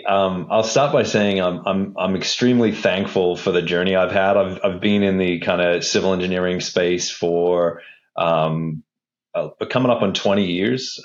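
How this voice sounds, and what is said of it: Australian accent. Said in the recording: “I grew up in Australia. That's why my voice or accent is a little bit strange, and you'll get a little bit of the crocodile hunter here and there.”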